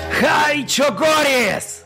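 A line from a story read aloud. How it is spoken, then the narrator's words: Roaring. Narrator (Russian): проревел Хасик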